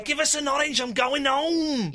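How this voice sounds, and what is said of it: Put-on Mancunian accent. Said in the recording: “the characteristic style of the way you were doing it as a Mancunian... You're still doing Mancunian... I'm doing an accent”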